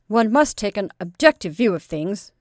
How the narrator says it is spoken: said the medical student gravely

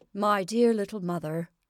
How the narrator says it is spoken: said in a patronizing tone

